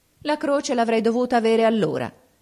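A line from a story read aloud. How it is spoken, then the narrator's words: Exclaimed unflustered. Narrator (Italian): esclamò il Rassi senza sconcertarsi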